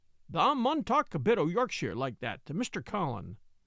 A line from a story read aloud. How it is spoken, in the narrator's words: Dickon chuckled